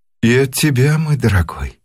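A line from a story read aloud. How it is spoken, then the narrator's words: Affectionate. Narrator (Russian): ответила миссис Минна ласково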